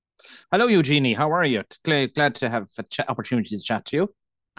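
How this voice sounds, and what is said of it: Irish accent. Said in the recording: “I always love the Irish accent.”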